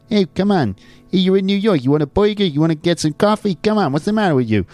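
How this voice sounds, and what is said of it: Put-on New York Italian-American accent. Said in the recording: “some sort of American accent... there's that kind of New York thing... Okay, that's more of an Italian-American thing”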